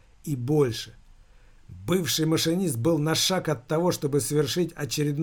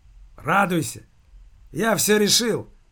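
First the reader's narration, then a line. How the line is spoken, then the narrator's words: Loud declaration. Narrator (Russian): громко заявил Скворцов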